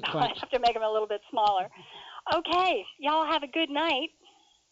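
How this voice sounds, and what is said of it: Put-on Southern US accent. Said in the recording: “had a southern accent going there”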